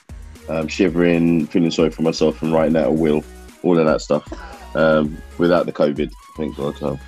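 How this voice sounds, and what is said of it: Sick, terrible-sounding voice. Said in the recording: “my voice sounds terrible. I've got proper flu, man flu”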